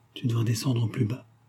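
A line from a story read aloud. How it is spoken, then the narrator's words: Murmured. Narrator (French): a-t-elle murmuré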